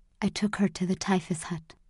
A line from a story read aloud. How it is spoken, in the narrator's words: whispered Mrs